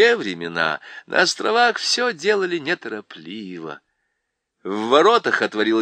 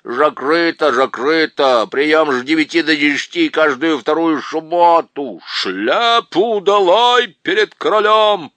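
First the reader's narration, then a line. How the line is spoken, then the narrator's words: Booming. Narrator (Russian): прогремел лорд Берн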